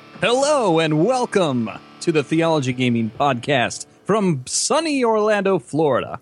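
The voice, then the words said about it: Smooth radio announcer voice. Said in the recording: “a sexy radio voice”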